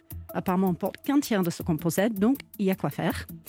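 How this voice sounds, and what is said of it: Noticeable pleasant accent. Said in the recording (French): “un très joli accent par ailleurs... Oui, très joli accent.”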